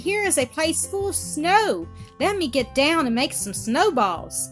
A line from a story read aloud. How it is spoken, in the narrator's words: cried